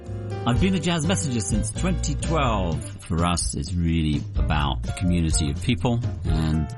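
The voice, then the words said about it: Australian or English accent. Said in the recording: “That accent, my goodness, I wonder if he's from Australia or England, can't tell.”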